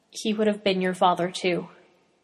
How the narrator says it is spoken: Quietly, he adds

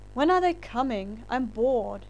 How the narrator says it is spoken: whined

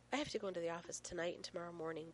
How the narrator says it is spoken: Beth sighs

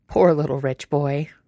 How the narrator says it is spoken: Ryan says, but he's laughing again

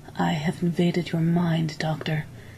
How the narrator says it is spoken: he said gravely

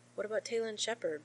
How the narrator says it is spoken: Rodney asked

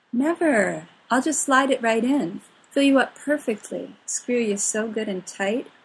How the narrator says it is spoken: Merlin promises, practically purring

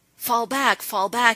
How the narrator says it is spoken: he shouted

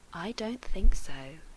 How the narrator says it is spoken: John whispered in his ear

